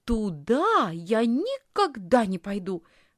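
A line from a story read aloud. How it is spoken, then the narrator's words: Exclamation. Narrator (Russian): воскликнула Лисхин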